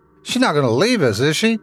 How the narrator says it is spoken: Tommy shouted as we both began rushing toward the top of the hill

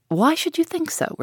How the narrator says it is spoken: replied he, with a sigh

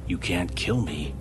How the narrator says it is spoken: Blackthorn hissed dangerously

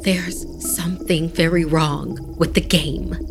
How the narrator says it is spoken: said in a hushed tone

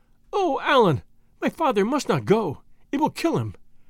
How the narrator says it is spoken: exclaimed Marie, who took a more serious view of his case than I did

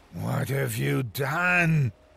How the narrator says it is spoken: He snarled

